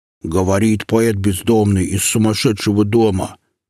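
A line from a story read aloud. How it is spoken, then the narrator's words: Mocking bass, snort. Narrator (Russian): передразнивая героя из романа Булгакова, пробасил Кощей и хмыкнул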